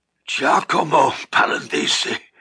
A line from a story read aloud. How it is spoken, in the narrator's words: the old man muttered through broken teeth